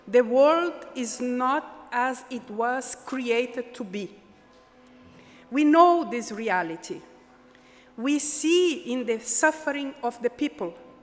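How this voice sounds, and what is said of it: Brazilian-accented English. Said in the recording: “my test for English of a Brazilian accent”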